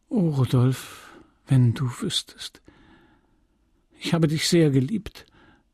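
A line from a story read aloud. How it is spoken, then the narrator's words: Sighing. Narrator (German): sagte sie, und sie seufzte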